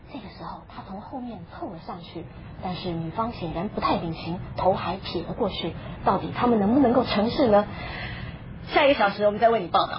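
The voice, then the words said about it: Hushed nature-documentary narration. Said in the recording (Chinese): “而且还要假装很小声，因为不想打搅他们”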